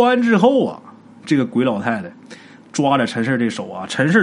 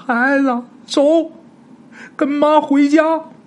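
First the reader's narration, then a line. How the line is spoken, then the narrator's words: Tearful old woman. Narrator (Chinese): 鬼老太太 带着哭腔就说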